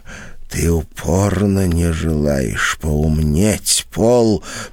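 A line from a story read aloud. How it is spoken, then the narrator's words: Whisper. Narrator (Russian): прошептала она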